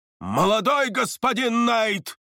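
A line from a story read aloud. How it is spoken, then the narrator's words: Spoken through gritted teeth. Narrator (Russian): сквозь зубы процедил один из учителей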